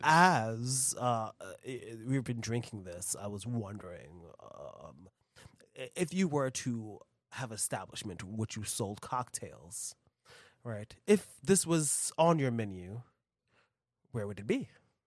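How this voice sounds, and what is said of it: Lowered radio announcer voice. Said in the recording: “as I'm using my radio voice now, I'm working on this. I hope you notice. ... He brought it down to us.”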